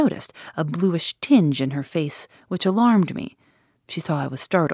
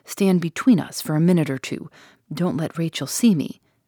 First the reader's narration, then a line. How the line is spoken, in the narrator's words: My aunt whispered